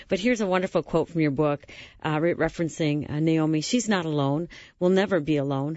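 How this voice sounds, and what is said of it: Slightly dry, strained voice. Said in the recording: “I'm battling a little bit of a dry throat today, so excuse my voice”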